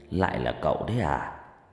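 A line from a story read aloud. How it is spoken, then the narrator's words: Soft reply. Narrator (Vietnamese): Ông trường khẽ đáp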